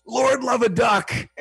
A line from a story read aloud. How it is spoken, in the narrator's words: he wanted to swear and he'd yell